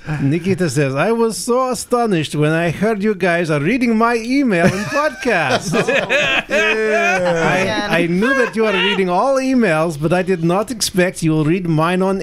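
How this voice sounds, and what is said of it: Reads aloud in a put-on accent. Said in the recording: “There better be an accent. ... Oh, you know there is.”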